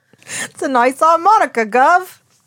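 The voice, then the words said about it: Put-on Cockney British accent. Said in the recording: “like a Cockney kind of thing ... My British accent. ... You sound like you were born below the Bowery Bells.”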